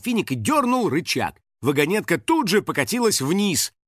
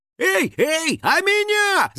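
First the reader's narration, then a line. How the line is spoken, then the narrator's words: Shout. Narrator (Russian): закричал домовой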